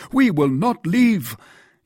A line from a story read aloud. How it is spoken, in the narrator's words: cried Porthos